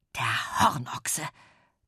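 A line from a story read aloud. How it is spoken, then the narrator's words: Hissed. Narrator (German): zischte Petronella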